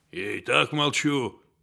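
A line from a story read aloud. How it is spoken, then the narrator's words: Mumble. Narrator (Russian): бормочет Денис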